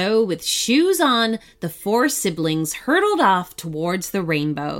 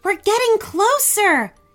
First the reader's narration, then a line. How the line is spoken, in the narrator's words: shouted, surprised at how easy this all appeared to be